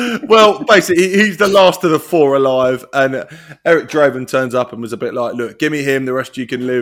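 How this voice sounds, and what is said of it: Usual voice. Nothing is said of it.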